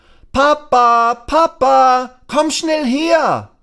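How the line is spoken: Calling out. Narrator (German): Lasse ruft

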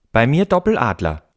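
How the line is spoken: Mischievous female call. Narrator (German): rief sie verschmitzt

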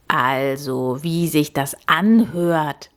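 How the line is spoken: Croaking. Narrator (German): krächzte er

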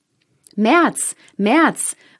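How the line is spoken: Called out. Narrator (German): rief der vierte ihm nach

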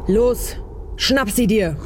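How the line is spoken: Thundering command. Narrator (German): donnerte entgegen

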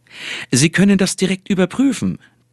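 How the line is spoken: Cheerful, triumphant. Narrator (German): triumphierte der Hühne, fröhlich

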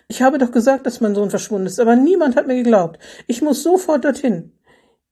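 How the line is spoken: Exclaiming. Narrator (German): rief Renate Schiffner aus

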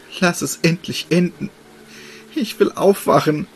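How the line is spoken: Girl pleading, holding back tears. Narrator (German): flehte das Mädchen und verkniff sich schwermütig die Tränen

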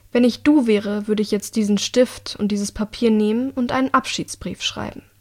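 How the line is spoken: Calm. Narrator (German): sagte sie ruhig

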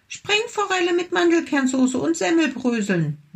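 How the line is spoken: Small tiger calling out. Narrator (German): rief der kleine Tiger

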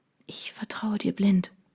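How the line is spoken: Whisper. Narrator (German): flüsterte ich

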